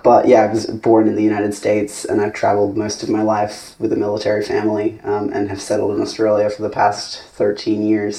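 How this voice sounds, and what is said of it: Muddled American-Australian accent. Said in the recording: “a very strange, muddled American-Australian accent that people think is probably Canadian ... an international American accent ... The international student accent”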